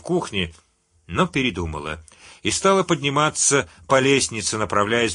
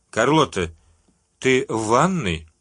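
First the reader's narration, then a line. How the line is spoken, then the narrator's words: Calm question. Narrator (Russian): спокойно спросила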